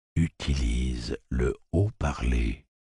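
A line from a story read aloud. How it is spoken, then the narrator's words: Soft. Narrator (French): dit-il doucement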